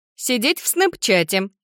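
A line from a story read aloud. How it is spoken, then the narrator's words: Giggle. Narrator (Russian): хихикнула Джардин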